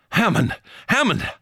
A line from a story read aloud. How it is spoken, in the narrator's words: I cried again, despairingly